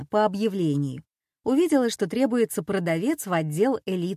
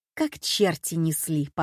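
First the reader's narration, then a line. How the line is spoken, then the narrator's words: Laughing. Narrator (Russian): смеялась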